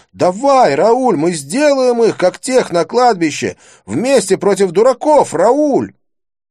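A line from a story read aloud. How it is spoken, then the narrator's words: Shouting. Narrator (Russian): Я кричал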